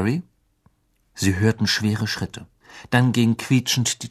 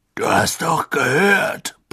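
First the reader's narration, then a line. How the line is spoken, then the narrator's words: Blustering, loud. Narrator (German): polterte er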